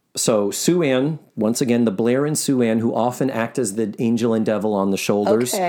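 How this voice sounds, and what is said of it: Usual voice. Nothing is said of it.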